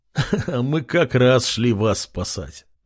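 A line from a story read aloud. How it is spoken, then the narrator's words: Young man laughing. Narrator (Russian): рассмеялся парень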